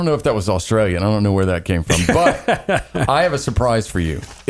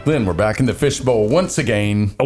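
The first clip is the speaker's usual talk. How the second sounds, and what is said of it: Put-on Australian accent. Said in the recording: “That's a good Australian accent you got there”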